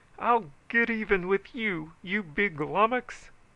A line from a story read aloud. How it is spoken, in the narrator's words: he howled as he ran